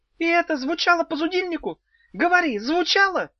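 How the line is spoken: Shout. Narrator (Russian): крикнула фея

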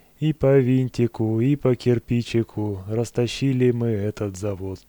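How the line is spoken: Sad singing. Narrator (Russian): Весельчак Севка Шмигалев грустно запел

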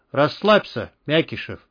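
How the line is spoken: Familiar voice, snorting. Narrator (Russian): хмыкнул рядом знакомый голос

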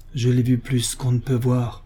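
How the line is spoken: Forceful exclamation. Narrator (French): s'exclama Paul avec force

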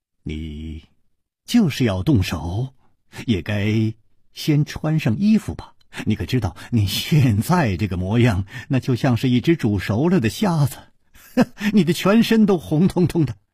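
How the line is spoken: Calm, faintly amused. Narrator (Chinese): 楚留香笑了笑，淡淡地说

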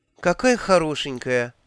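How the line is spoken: Kindly sigh. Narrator (Russian): вздохнула Магрот, добрая душа

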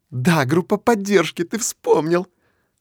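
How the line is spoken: Joyful chirping girl. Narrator (Russian): Радостно щебечет девушка

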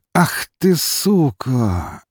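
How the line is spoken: Almost moaning. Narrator (Russian): едва ли не простонал

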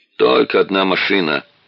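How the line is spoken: Lazy reply, broken English. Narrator (Russian): лениво ответил служащий на ломаном английском

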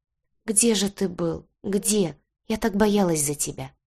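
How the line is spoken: Whispering. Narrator (Russian): зашептала

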